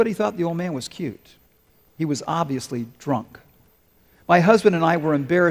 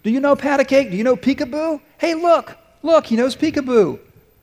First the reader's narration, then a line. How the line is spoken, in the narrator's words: the man began shouting from across the room